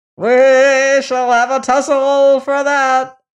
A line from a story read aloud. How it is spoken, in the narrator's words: screamed the troll